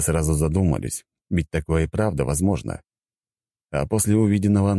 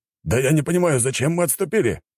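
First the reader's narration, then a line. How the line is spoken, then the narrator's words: Exclaiming. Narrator (Russian): воскликнул мужчина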